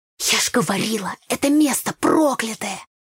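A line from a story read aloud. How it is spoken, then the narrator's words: Ominous whisper. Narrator (Russian): прошептала зловеще Таня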